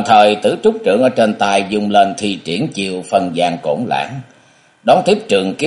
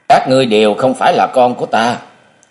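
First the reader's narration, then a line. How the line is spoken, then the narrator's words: Flushed, angry loud shout. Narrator (Vietnamese): Bất giác đỏ bừng nét mặt, sau cùng tức giận quát lớn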